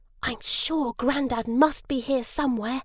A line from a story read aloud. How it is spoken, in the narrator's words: Harry whispered to Wolf